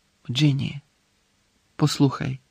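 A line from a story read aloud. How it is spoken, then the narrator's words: Quiet. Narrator (Ukrainian): тихо промовив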